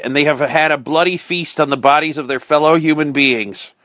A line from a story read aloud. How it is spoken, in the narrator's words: cried